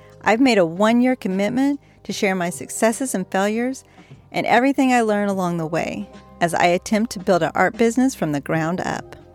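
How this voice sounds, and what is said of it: Slightly breathless, scratchy throat. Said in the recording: “a little out of breath and my throat seems a little scratchy ... that kind of comes through a little bit on my tone of voice”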